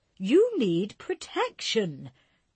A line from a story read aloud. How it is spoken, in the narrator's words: Dot cried